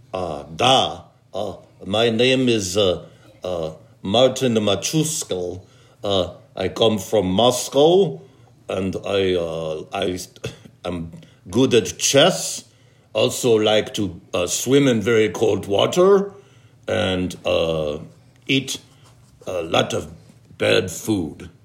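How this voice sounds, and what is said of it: Put-on Russian accent. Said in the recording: “Let's do Russian.”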